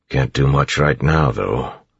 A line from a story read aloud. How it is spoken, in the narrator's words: Clubs grumbled